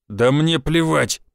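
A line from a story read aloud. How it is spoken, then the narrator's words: Through gritted teeth. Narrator (Russian): процедил гвардеец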